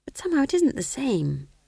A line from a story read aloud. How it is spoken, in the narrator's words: whispered McGrath wretchedly